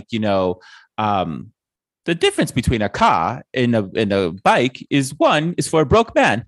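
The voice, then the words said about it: Imitates another person's accent. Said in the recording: “I just did a really problematic accent ... it was just doing her”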